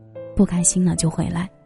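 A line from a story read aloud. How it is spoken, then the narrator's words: Calm mother. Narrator (Chinese): 我妈又突然平静下来说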